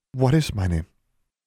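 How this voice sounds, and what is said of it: Worried voice. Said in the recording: “in a worried voice”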